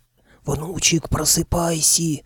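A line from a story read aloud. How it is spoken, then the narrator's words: Old man hissing. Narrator (Russian): шипел дед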